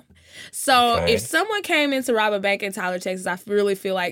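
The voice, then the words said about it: Texan accent, drawn-out vowels. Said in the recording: “where's my accent hopping out? Where'd that come from? ... we all say Tyler like Tyler ... You got to make the Y long. Tyler.”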